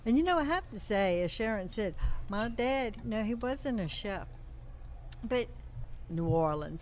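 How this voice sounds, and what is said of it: New Orleans accent. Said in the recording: “grow up in New Orleans? ... Can you tell by the accent? ... Definitely.”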